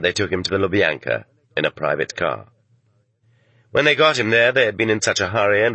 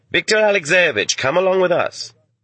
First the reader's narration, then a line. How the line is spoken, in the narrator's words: two pleasant young men called out to him